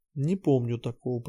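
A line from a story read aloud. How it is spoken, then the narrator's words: Mumbling. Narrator (Russian): пробормотала Нотти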